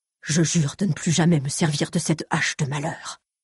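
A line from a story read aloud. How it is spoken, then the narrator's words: Murmuring. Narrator (French): murmura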